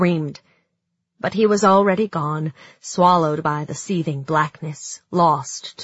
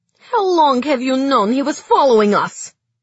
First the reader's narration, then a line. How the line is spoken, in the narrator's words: asked Zoya angrily